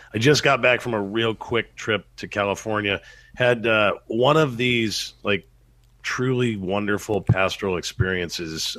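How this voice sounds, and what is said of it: Slightly scratchy, sick-sounding voice. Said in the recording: “I've been sick the last couple of days. You can probably hear it in my voice a little bit. It's a little scratchy.”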